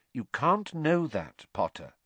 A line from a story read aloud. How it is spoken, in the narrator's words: said Professor McGonagall quite kindly